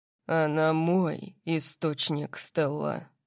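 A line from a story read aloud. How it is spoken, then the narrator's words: Growled. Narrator (Russian): прорычал он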